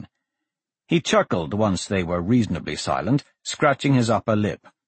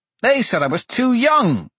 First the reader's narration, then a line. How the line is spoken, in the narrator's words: Blaze cried